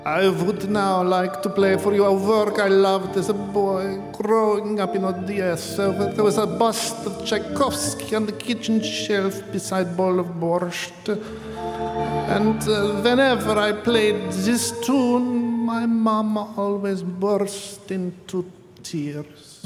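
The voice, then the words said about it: Put-on Russian-style accent. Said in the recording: “School of Accents”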